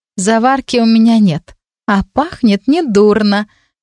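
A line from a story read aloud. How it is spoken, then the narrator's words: Sudden laughter. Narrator (Russian): и вдруг рассмеялась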